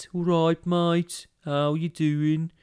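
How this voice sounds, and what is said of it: Put-on Dudley accent. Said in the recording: “it's the Dudley accent. It's like that.”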